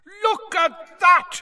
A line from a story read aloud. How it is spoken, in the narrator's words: Bagman was yelling